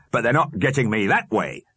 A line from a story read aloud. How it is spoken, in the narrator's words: he snapped